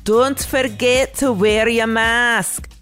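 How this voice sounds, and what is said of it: Bad fake Scottish accent. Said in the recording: “in the worst Scottish accent ever”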